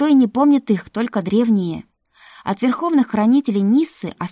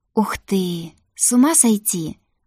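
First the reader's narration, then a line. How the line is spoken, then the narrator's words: Delighted whisper. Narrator (Russian): восторженно прошептала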